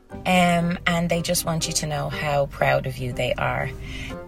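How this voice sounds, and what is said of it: Dublin Irish accent. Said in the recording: “it's a dub accent. Someone from Dublin.”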